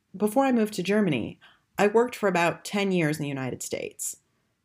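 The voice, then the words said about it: American accent. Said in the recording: “As you can tell from my accent, I'm American.”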